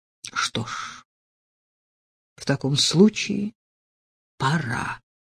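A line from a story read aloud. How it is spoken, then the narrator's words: Slightly hoarse with excitement. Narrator (Russian): слегка хриплым от волнения голосом произнес он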